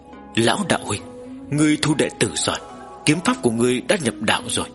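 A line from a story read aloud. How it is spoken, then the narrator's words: Startled sigh. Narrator (Vietnamese): Thanh U Sơn Nhân giật mình, nhìn Tần Mục, lại nhìn Trưởng Thôn, đột nhiên thở dài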